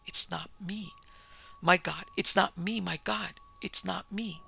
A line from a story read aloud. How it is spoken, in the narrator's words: Parsket managed to gasp out